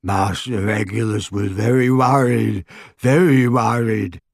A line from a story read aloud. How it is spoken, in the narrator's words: croaked Creature